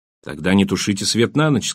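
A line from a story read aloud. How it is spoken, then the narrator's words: Plain. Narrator (Russian): сказал Райк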